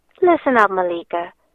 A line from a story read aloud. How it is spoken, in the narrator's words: Caleb says, whispering in my ear